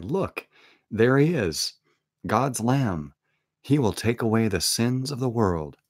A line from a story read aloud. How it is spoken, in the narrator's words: John cried